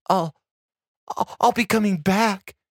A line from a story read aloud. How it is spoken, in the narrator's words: she stammered in a small, pleading voice